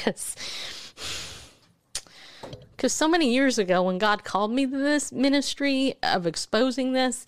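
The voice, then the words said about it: Emotional, strained voice. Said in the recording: “I'm getting emotional”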